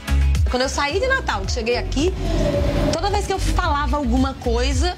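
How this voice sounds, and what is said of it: Northeastern Brazilian accent. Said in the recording (Portuguese): “seu sotaque, nossa ... ter esse sotaque nordestino”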